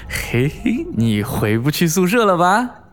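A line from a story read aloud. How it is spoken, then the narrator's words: Sinister snickering. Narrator (Chinese): 我阴笑的对她说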